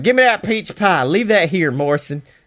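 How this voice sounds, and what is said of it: Thick Georgian Southern accent, AJ Styles. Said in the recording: “AJ asks for the pie with the most Georgian accent I've ever heard”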